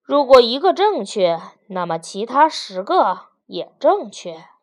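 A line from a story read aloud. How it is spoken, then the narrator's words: Sighing. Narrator (Chinese): 第四位叹息着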